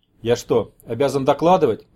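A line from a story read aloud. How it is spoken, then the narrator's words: Grumbling. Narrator (Russian): пробурчал Сергей Борисович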